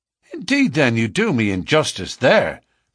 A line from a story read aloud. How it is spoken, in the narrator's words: cried McMurdo